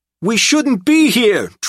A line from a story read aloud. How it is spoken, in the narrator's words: Trip howled